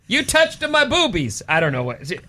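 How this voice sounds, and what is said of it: Attempted Brazilian accent. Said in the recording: “I don't know the Brazilian accent.”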